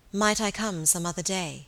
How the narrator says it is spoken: coldly to reply

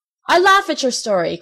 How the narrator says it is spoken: cried the man angrily

